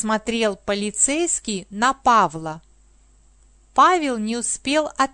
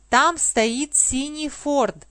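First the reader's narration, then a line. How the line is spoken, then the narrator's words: Plain. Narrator (Russian): сказал полицейский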